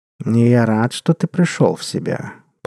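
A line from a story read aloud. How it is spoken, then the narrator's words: Purring. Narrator (Russian): промурлыкал кот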